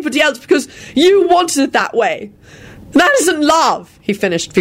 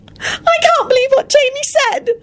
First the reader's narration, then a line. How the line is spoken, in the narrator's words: she sobbed